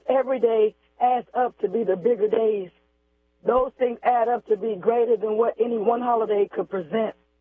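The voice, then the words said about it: Hoarse, strained voice. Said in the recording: “They don't want me to get my voice back. I'm going hoarse. My phone crackling”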